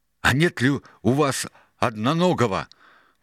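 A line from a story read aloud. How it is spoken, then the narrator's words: Breathless shout. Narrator (Russian): выкрикнул он, задыхаясь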